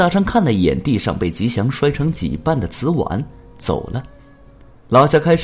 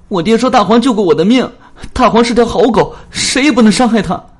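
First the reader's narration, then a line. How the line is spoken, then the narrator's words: Crying, anxious shouting. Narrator (Chinese): 吉祥……急哭了，大声喊起来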